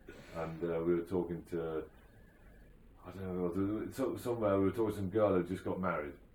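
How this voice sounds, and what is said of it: Yorkshire English accent. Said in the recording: “a Yorkshire lad like me ... in a Yorkshire accent”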